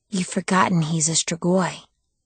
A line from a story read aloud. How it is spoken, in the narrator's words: something whispered in my mind